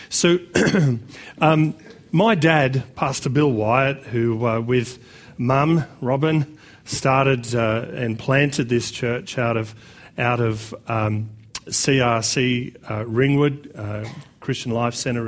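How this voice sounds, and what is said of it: Slightly croaky voice. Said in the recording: “excuse my voice just a little bit. I'm a little bit croaky”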